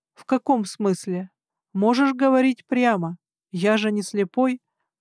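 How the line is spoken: Sad smirk. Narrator (Russian): Гарн грустно усмехнулся

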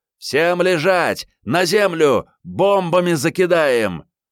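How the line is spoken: Unintelligible shouting. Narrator (Russian): В ответ закричали что-то непонятное

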